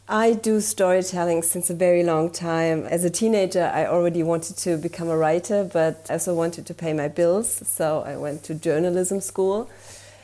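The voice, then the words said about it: German-accented English. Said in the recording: “I'm from Germany, so please have mercy with my accent.”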